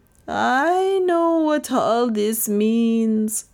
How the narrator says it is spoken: moaned Lizzie

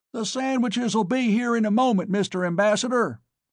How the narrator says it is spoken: Hutchinson screamed, in effect whispered, in my ear

